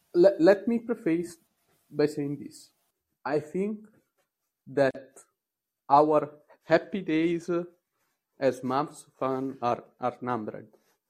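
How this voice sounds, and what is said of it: Italian accent. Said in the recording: “Sorry for my accent. I'm Italian, so maybe not the best.”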